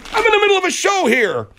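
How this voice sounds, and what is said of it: Yelling angrily. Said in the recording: “Don't yell like that ... You sound like a child.”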